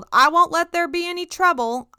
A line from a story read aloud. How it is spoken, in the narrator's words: He reportedly yelled